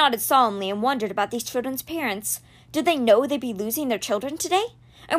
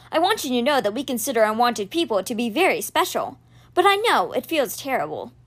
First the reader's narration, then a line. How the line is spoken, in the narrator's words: he said hastily